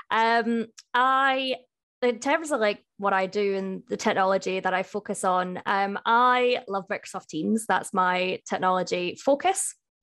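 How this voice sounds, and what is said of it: Scottish accent. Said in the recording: “The accent doesn't really match where I live. That's because I am from Scotland”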